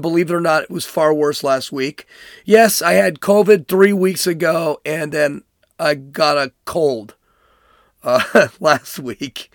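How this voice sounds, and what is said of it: Hoarse, weakened voice. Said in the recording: “you may have noticed my voice is gone”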